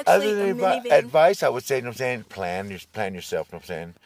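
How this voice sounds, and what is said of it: Texas drawl accent. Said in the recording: “You have a bit of an accent. ... Texas draw”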